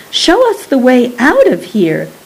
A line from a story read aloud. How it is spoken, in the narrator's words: cried Rosie